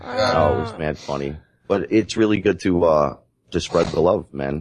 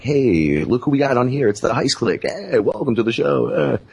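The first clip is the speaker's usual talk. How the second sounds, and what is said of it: Fake radio host voice. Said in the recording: “With the fake voice and everything.”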